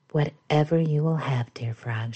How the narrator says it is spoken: she said

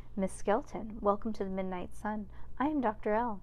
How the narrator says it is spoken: said smoothly, as if he were just meeting her for the first time

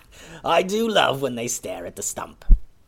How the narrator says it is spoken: a voice behind them laughed and said

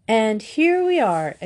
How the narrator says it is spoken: exclaimed Bet

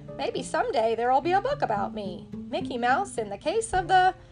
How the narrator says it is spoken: sighed

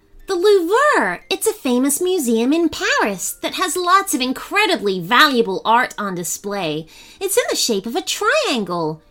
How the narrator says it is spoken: she exclaimed

